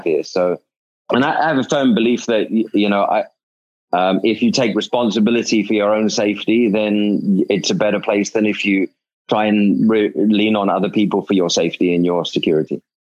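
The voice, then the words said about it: British accent with South African tinge. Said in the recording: “friends in the UK now say that I have a South African accent”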